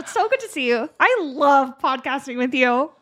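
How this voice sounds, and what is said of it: Annoying, put-on chatty voice. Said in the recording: “that's a good annoying ... turns into a weird accent”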